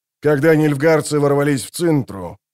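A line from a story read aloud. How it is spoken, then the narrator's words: Grumbling. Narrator (Russian): проворчал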